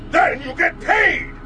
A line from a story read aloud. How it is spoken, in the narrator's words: He shouted